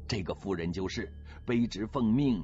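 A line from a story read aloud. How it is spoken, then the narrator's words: Fawning, ingratiating. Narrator (Chinese): 姚清晨赶紧陪笑，指着朵云说了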